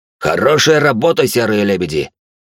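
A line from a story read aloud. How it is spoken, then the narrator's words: Joyful growl. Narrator (Russian): радостно рыкнул предводитель пиратов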